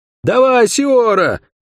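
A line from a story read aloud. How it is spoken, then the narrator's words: Young man shouting. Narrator (Russian): крикнул светловолосый парень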